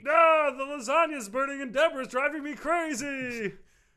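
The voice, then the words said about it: Kermit the Frog-like Muppet voice. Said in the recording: “what, you a Muppet? ... You're just doing that with your voice. ... really does sound like Kermit the Frog, doesn't he?”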